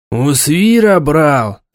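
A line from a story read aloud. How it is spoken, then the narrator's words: Angry question. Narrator (Russian): зло спросил Дарак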